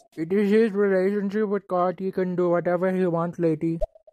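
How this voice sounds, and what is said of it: Very thick accent. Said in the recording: “You have a very thick accent, but I totally understood what you said.”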